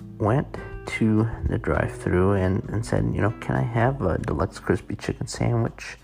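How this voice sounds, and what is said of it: Usual voice. Nothing is said of it.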